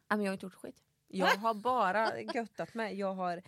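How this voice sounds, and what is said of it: Östergötland Swedish dialect, slight lisp. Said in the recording (Swedish): “det här med din dialekt ... jag läspar ... Som pratar östgötska”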